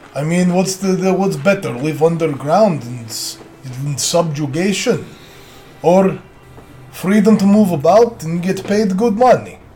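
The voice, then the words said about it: Put-on Russian accent, dwarf character. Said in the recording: “I'll answer in the dwarf because I just like the Russian accent... You do a good job”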